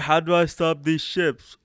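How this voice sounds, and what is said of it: Imitates a film villain's voice. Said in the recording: “Do a Palpatine voice ... That's the Palpatine voice ... he has the stupidest voice in all of Star Wars”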